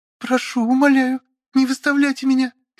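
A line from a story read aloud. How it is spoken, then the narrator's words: Frightened whimpering girl. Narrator (Russian): испуганно скулила девица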